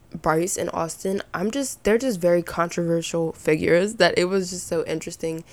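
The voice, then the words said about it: Raspy, sick voice with vocal fry. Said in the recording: “Y'all, I told y'all I was gonna be coughing ... Why am I sick? Can you guys hear it in my voice? ... my voice is always kind of not really raspy, but like kind of raspy ... I have a bit of vocal fry”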